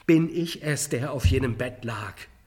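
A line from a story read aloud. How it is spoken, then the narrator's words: Crying out, collapsing. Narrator (German): rief er, in die Knie sinkend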